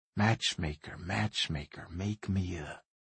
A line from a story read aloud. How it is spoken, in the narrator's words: In a whisper, his bottom lip brushing Cameron's earlobe, Landry slowly sang